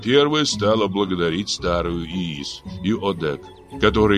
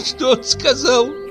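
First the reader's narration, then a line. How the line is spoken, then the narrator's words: Laughing. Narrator (Russian): Засмеялась Жаныл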